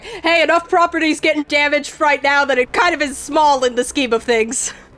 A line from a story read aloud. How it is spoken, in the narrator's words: One of the dwarves yells back